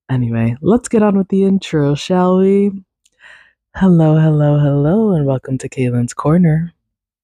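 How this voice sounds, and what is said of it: Slightly raspy voice. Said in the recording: “My voice is a bit raspy, I'm noticing”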